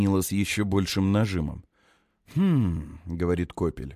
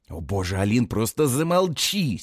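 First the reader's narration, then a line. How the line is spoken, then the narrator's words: Angry whisper. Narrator (Russian): сердито шепчет Нила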